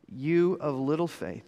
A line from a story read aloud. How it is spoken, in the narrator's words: he said